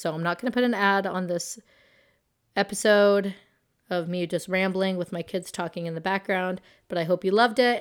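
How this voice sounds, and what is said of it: Raspy voice. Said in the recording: “talking with my raspy voice ... i hope that next week i have a better voice”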